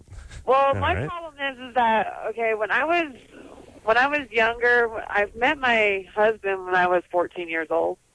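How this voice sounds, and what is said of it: Voice sounds older than her age. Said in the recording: “You sound like an old soul. ... I sound older than what I really am.”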